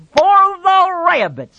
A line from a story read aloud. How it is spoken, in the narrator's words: Lenny shouted